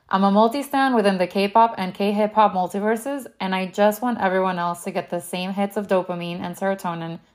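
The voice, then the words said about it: Miami accent. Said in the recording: “cannot shake my Miami accent, even after living in London for a couple of years”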